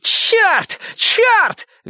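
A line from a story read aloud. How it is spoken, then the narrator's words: Shrieking. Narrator (Russian): визжал кто-то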